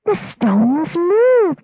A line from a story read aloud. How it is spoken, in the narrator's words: they cried